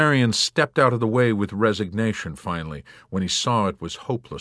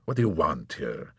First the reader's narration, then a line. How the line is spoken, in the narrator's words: he asked coldly